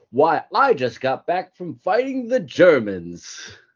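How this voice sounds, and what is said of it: Put-on mid-Atlantic accent. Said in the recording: “people talk like in a mid-Atlantic accent”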